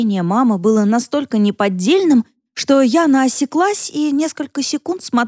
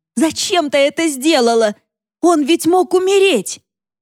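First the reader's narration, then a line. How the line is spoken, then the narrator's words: Sudden unexpected shout. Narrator (Russian): неожиданно для самой себя вдруг закричала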